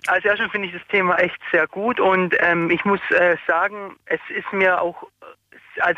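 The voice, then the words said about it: Swabian regional German accent. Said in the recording (German): “Stuttgart. Das hätte man jetzt auch ein bisschen vermutet, schon am Akzent schon erkannt.”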